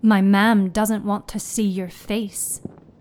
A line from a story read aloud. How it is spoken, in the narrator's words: Seamus said